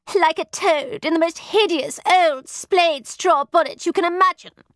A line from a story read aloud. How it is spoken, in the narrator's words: snapped Satin, recovering from her tears